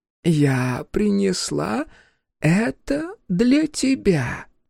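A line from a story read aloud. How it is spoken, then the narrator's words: Trembling hoarse voice. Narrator (Russian): произнес голос, дрожащий и хриплый, но такой знакомый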